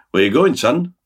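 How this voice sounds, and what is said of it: Weak attempt at Oswestry accent. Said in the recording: “That was my attempt at doing a sort of a Oswestrian accent... Not good.”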